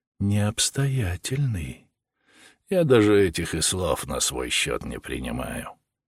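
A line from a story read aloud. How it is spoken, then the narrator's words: Calm reply. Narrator (Russian): отвечал спокойным тоном Сергей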